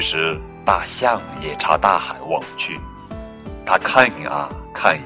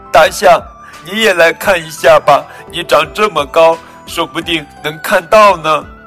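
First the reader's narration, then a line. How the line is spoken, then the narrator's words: Small creature crying while speaking. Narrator (Chinese): 小蚂蚁一边哭一边说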